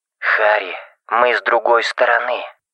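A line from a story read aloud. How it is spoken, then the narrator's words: Whispered. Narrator (Russian): шепотом сказал Тикс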